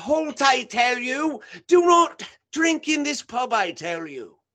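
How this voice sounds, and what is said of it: Put-on British accent. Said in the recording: “I like it with the British accent”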